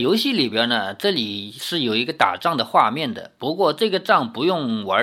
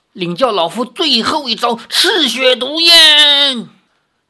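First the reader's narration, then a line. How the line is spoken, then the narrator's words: Loud fierce shout. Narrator (Chinese): 石长老大声喝道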